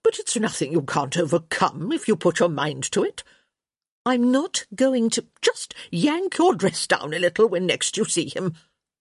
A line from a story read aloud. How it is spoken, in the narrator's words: Lady Dee cut in